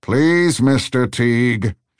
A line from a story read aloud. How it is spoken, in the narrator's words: shouted the larger one